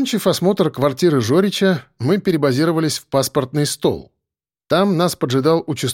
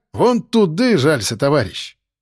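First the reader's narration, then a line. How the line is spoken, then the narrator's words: Angry. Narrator (Russian): Зло прищурился участковый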